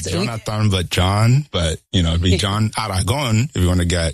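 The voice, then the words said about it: Colombian Spanish accent. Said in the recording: “I like the way you say it too. I love the accent that comes through. You're from Colombia”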